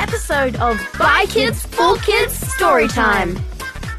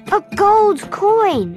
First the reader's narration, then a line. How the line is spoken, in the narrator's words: exclaimed Aladdin